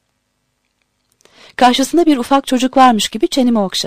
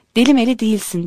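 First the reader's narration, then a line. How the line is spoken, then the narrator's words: Plain. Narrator (Turkish): dedi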